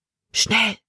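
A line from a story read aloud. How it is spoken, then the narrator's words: Whispered. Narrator (German): flüsterte sie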